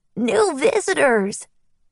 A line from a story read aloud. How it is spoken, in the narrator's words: a young boy who couldn't have been older than 10 pointed at us and shouted